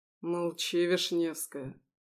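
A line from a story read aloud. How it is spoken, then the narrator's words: Growling. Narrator (Russian): прорычал он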